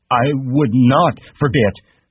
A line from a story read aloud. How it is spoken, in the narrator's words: Lenny said loudly